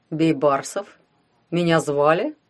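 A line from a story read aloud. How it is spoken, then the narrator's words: Mocking question. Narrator (Russian): насмешливо поинтересовался кто-то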